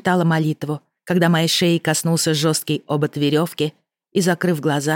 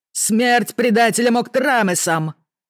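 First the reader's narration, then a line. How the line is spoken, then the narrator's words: Shout from crowd. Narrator (Russian): прокричал кто-то в толпе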